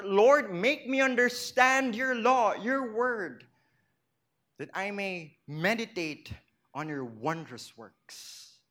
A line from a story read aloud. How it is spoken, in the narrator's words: exclaiming in his heart